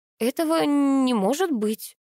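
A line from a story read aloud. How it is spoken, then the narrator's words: Uncertain faltering babble. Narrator (Russian): неуверенным голосом пролепетала я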